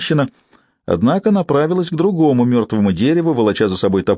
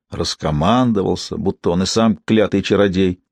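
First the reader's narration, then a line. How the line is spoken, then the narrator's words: Woman muttering. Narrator (Russian): пробормотала женщина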